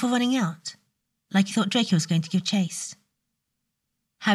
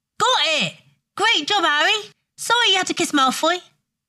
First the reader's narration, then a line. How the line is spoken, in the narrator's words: Ron shouted very loudly